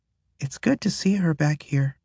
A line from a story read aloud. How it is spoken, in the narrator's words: Ezra says softly